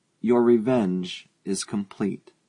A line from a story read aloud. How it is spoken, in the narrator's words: he said slowly